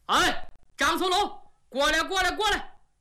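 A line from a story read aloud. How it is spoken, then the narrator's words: Loud shout. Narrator (Chinese): 他高喊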